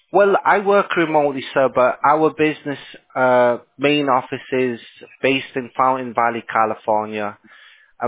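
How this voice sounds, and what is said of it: Non-American foreign accent. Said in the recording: “I can tell by the accent, you're not in the United States”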